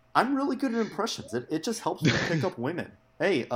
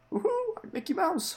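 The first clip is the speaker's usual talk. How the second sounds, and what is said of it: Mickey Mouse cartoon character voice. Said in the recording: “here's my Mickey Mouse impression.”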